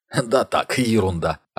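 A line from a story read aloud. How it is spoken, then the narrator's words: Holding back laughter. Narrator (Russian): ответил Ник, хотя был готов расхохотаться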